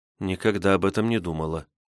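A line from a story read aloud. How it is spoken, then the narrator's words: Quiet. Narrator (Russian): тихо сказала Светлана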